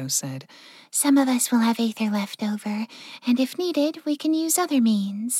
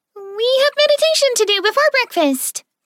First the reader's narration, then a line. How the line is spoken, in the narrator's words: Clover blurted out